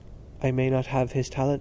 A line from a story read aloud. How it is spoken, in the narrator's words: said Stephen quietly